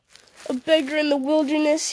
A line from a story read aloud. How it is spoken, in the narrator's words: he mocked